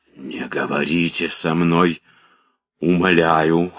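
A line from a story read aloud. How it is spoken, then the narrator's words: Hoarse whisper. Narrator (Russian): хрипло прошептал Пьер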